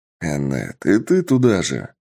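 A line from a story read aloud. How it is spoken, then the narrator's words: Weary indignation. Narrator (Russian): устало возмутился босс, сидящий на троне феодала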